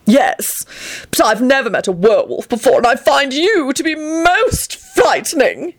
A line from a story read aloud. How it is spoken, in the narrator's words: Grinlittle responded haughtily